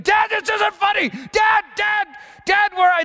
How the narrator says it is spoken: He started screaming

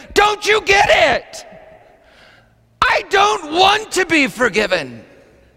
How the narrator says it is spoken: through her tears, she screamed into my face

